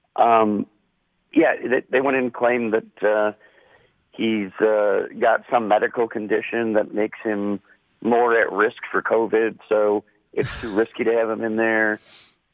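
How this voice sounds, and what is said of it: Strained, under-the-weather voice. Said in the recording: “I'm not in my best voice today.”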